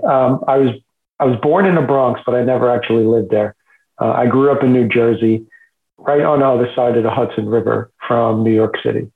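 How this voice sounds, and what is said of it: Non-local regional accent. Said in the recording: “we all know that that is not where you're originally from based on the accent”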